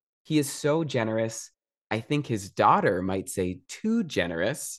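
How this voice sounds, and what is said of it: Usual voice. Nothing is said of it.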